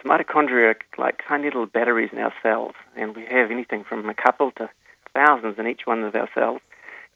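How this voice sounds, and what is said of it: Cute accent, A sounds like I. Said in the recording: “Your cute accent, it sounds like it says ITP, but you're saying ATP”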